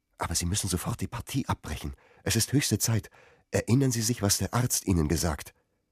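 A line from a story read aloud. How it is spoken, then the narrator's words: Soft whisper. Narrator (German): flüsterte leise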